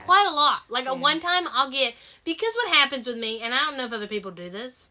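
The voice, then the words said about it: Southern American accent. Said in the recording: “your Southern accent? ... My accent? ... I just love your accent. ... a really Southern part of North Carolina”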